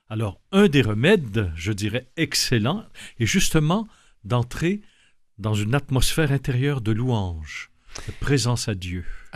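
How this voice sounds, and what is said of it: Québécois French accent. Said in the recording (French): “Votre accent trahit votre origine. ... vous êtes québécois.”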